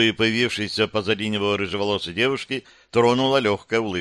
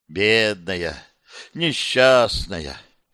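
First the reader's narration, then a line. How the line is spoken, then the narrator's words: Mock-heavy sigh, summing up. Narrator (Russian): Кир притворно тяжело вздохнув, резюмировав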